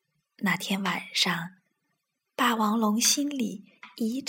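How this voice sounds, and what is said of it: Usual voice. Nothing is said of it.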